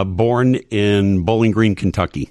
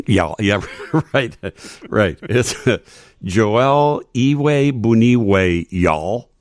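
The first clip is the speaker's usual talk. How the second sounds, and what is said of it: Put-on Southern twang. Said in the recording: “That's why I have to say it with a little Southern twang.”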